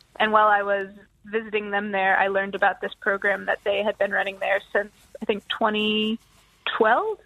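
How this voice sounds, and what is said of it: American accent. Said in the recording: “with your accent ... I'm originally from the US”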